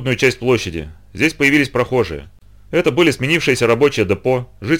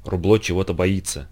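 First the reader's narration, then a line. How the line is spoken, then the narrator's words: Whisper. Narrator (Russian): прошептала она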